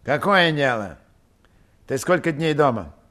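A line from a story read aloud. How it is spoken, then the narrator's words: Dry question. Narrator (Russian): сухо спросил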